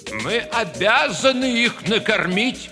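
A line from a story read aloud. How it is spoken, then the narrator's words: Exclaimed. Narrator (Russian): воскликнул главный цензор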